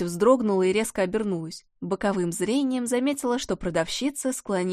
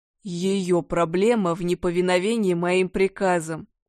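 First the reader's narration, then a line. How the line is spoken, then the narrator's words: Stern thundering male voice. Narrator (Russian): Суровый мужской голос прогремел над головой, как гром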